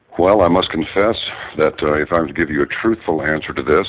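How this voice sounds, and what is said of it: Deep, smooth radio announcer voice. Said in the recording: “You got that deep, nice radio voice.”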